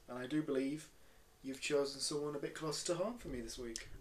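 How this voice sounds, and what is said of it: Yorkshire accent. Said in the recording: “from his accent, ... is from Yorkshire ... Leeds, West Yorkshire”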